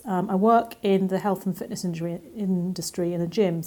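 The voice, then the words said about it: English accent. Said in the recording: “I live in England, as you can probably hear from my accent”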